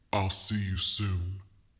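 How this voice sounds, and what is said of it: Deep voice. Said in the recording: “deep voice”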